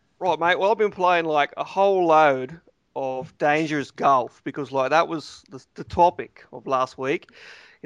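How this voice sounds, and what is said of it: Put-on Australian accent. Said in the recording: “How about Australian, mate? ... since you're doing accents ... Sorry, I can't keep that.”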